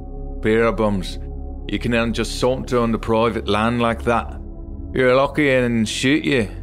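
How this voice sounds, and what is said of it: Very thick Scottish accent. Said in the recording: “about the thickest Scottish accent I've ever heard”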